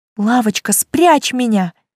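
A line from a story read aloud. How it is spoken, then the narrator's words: Pleading aloud. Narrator (Russian): снова взмолилась я вслух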